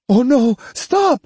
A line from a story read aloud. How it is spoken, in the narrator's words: she cried, hoping to keep the boy from doing anything rash